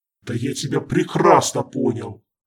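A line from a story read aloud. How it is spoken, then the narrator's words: Booming voice. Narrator (Russian): прогремел Харден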